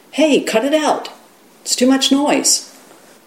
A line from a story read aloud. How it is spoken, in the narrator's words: the young man who lived next door called out to his friend